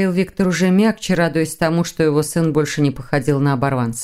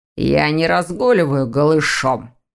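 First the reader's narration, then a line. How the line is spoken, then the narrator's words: Growl quieting down. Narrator (Russian): Дамиан зарычал, вовремя затихая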